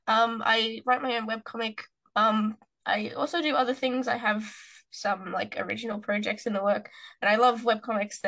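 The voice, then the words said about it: Australian accent. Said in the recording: “I live in Australia, as you can tell, and as ... can tell from my accent.”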